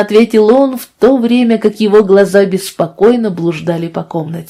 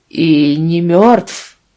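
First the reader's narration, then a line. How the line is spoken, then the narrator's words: Muttering. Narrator (Russian): пробормотал он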